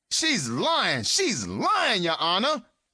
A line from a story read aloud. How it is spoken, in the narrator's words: He started screaming